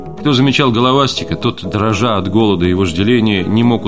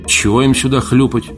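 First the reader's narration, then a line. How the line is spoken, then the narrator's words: Gloomy. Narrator (Russian): мрачно озвучил Валентин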